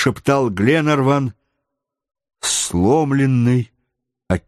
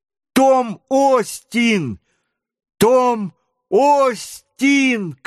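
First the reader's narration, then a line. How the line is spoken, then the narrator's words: Shouting boy. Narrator (Russian): кричал мальчуган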